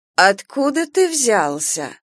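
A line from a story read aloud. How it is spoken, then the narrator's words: Nasty voice. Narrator (Russian): спросила Нина Федоровна противным голосом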